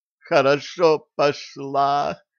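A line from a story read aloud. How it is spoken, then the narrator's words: Ecstatic moan. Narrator (Russian): в экстазе простонала Стервалини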